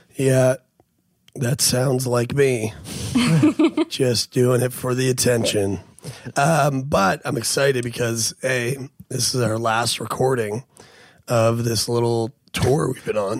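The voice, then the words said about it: Badly worn-out voice. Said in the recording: “As you can probably hear from the sound of my fucking voice... your voice has been getting progressively worse... It's really bad”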